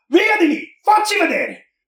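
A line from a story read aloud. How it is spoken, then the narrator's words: Yelling. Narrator (Italian): Enea si lamentò e urlava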